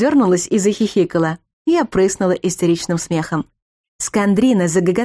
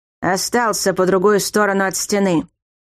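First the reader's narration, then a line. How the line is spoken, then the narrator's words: Elder growling. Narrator (Russian): прорычал старший Мастгури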